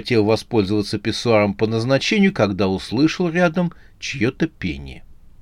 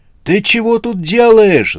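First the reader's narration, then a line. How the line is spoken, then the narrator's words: Yelled. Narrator (Russian): заорал он на девушку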